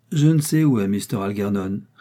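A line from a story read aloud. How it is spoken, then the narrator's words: Plain. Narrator (French): répondit Jem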